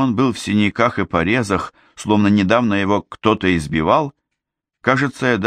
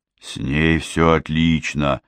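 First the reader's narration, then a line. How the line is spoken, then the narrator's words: Forced out. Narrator (Russian): выдавил Пит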